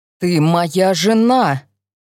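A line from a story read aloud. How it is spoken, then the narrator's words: Growled. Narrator (Russian): прорычал Честер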